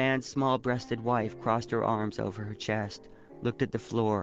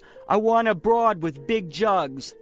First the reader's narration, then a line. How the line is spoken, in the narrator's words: one of the men yelled